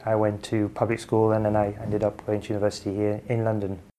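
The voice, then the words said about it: Slight French accent. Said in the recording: “you sound somewhat French”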